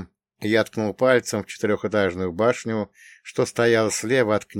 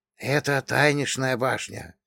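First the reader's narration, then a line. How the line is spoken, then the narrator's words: Quiet speech. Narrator (Russian): тихо заговорила Лейка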